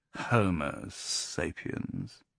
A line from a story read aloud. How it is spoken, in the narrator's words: He then drawled